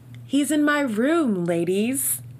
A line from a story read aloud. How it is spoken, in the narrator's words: Bree called out